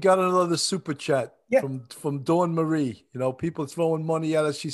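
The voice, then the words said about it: New York City accent. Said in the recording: “our New York City accent”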